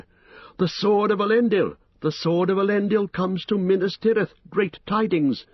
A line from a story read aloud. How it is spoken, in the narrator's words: Some cried aloud